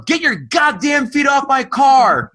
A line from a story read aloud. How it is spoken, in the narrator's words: would yell